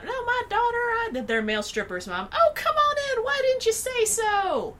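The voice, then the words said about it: Put-on Southern accent. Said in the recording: “My accent is horrible. ... That's pretty spot on. ... doing a Southern accent.”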